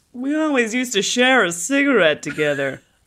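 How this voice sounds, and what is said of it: Big character voice. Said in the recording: “in your big voice”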